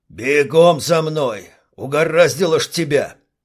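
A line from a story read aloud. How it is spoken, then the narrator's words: Barked. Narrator (Russian): Рявкнул Липатов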